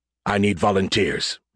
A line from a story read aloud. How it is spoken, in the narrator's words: he growled